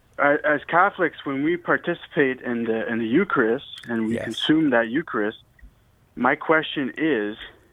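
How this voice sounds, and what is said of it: French-Canadian accent. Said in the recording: “I'm also a French-Canadian there, so don't mind the accent ... It's an awesome accent.”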